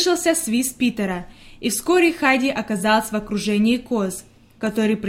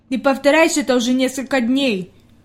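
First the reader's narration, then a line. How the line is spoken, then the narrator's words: Displeased grumble. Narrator (Russian): недовольно пробурчал Питер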